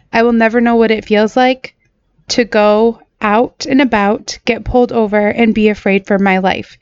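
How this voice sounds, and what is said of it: Choked-up, emotional voice. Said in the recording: “getting choked up... my voice sounds different today because this is just a very sad issue”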